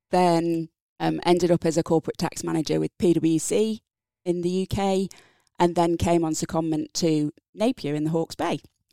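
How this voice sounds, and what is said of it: English accent. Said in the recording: “So from my accent, English”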